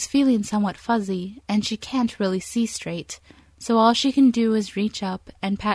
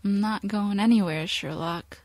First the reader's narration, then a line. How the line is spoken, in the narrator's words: she mutters